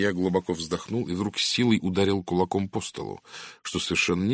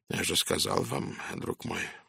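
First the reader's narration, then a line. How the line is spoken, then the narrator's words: Tired. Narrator (Russian): устало произнес Пуаро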